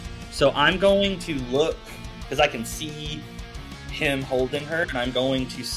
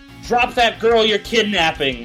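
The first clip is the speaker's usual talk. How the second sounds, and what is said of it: Loud yelled command. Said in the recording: “Loud enough for security guard to also hear... I'm yelling”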